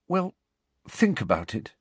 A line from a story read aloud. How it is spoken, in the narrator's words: said Hermione quietly